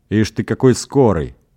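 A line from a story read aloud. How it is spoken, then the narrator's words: Exclaiming with a smirk. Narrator (Russian): воскликнул Орган, усмехаясь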